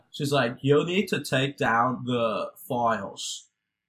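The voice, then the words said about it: Put-on Australian accent. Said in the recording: “It's my horrible Australian accent... That was pretty good, man.”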